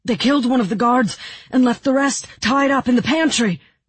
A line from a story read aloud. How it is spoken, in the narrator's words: the boy continued breathlessly